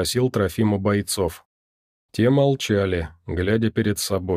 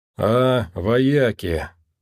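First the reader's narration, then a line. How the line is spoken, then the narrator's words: Drawn-out drawl. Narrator (Russian): протянул Якорь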